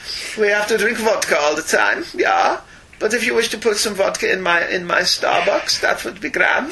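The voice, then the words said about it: Bad put-on Russian accent. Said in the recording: “A bad Russian accent. A bad Russian accent,”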